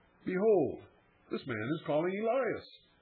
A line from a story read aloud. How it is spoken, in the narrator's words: with mingled curiosity and sarcasm, they exclaim